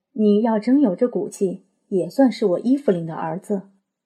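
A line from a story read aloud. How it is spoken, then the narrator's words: Cold sneering laugh. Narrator (Chinese): 伊芙琳冷冷笑着说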